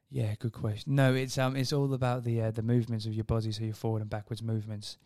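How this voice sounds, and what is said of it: Australian accent. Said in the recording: “you both have that nice Aussie accent to listen to”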